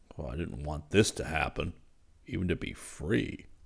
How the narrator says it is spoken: Zircon muttered

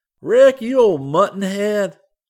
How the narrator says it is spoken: Scotty exclaimed

